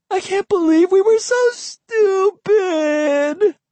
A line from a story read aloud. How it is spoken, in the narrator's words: Emily wailed